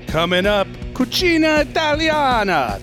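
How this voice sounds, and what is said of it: Exaggerated Italian accent. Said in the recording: “That's Italian food in a horrible accent”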